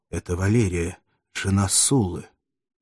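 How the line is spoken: Slightly excited whisper. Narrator (Russian): Он почувствовал легкое волнение и шепнул ему на ухо

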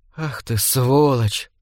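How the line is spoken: Muttering. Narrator (Russian): пробормотала она

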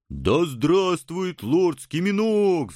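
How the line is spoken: Enthusiastic roar. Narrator (Russian): взревел воодушевленный бульдозер

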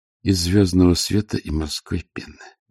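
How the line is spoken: Whispering. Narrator (Russian): шепот чары

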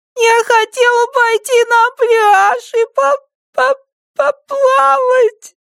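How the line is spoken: Sobbing little girl. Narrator (Russian): всхлипывала маленькая девочка

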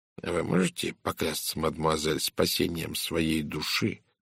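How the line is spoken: Quiet question. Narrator (Russian): тихо спросил Пуаро

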